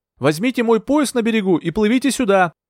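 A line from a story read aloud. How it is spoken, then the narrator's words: Shouting. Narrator (Russian): крикнула я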